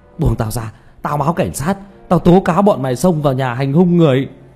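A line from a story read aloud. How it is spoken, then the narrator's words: Roaring. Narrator (Vietnamese): Lưu Kế Toán gầm thét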